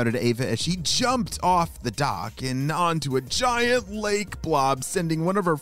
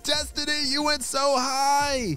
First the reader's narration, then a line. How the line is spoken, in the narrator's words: shouted